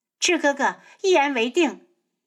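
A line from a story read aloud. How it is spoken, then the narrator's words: Happy laughter. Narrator (Chinese): 素如一开心的笑起来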